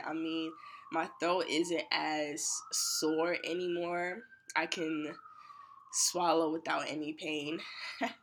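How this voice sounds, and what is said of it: Sick, congested voice. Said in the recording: “I'm actually really sick... I don't know if y'all can hear it in my voice, but I'm actually definitely sick... my nose, because I have like the sniffles”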